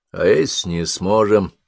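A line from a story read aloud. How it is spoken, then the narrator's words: Muttering. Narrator (Russian): пробормотал Бен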